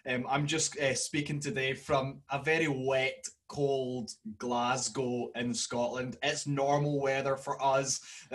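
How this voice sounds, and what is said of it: Broad Scottish accent. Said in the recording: “This is a very broad Scottish accent”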